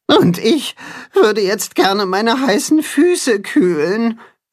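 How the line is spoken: Groaning. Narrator (German): stöhnt das Katzenhuhn

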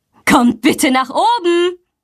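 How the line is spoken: Calling. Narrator (German): ruft sie

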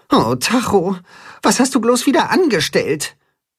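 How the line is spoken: Sighing. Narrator (German): seufzt Timme

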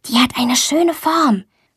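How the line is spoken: Whispered. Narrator (German): flüstert Luisa

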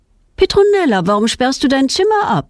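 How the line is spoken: Mother calling. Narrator (German): ruft ihre Mutter

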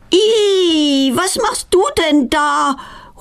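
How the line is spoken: Horrified cry. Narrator (German): ruft sie entsetzt

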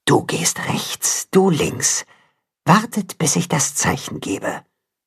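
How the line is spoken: Whispering mother wolf. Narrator (German): die Wolfsmutter flüstern

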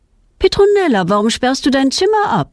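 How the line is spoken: Calling mother. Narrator (German): ruft ihre Mutter

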